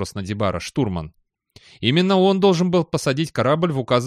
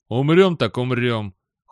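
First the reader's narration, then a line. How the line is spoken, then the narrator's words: Cold. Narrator (Russian): холодно сказал Надибара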